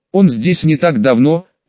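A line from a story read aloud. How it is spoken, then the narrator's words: Calm. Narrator (Russian): продолжил спокойно Крувин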